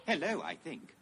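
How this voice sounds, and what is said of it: C-3PO character voice. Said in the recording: “it's C-3PO ... I love your accent. It's adorable.”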